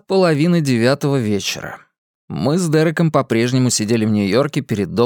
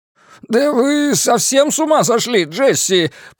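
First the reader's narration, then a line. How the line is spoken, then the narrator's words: Groaning. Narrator (Russian): простонал Островский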